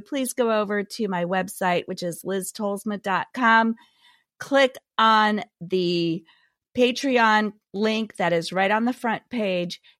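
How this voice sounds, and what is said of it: Scratchy, hoarse voice. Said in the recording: “give my scratchy voice a rest”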